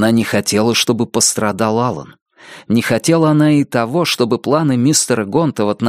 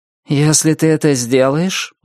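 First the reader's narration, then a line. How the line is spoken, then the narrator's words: Gloomy declaration. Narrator (Russian): мрачно заявил внутренний голос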